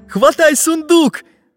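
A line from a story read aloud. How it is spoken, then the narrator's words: Shouting. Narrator (Russian): закричал Карандаш своему другу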